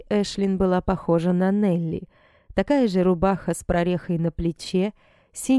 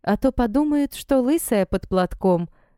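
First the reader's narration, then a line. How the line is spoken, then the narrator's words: Girls laughing. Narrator (Russian): смеялись девчонки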